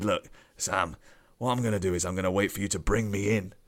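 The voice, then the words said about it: Alan Brazil impression, not gravelly enough. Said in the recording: “It's supposed to be my Alan Brazil accent, but I haven't had enough years of the red wine to gravel it up enough.”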